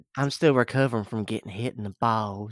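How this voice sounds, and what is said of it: Twangy, dulcet character voice. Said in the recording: “You gotta be a little more dulcet in your tones... A little more twang, a little more dulcet.”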